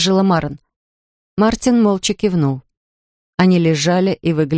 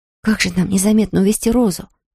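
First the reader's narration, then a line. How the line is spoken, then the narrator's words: Whisper. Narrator (Russian): прошептала Марен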